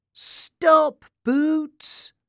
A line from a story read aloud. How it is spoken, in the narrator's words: cried Sam